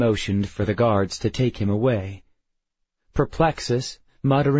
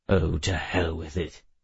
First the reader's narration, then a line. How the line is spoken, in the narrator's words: he muttered